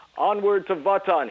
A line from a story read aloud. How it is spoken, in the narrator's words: he yelled